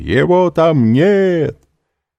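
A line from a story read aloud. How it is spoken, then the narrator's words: Loud shout. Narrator (Russian): унтер-офицер громко крикнул обоим жандармам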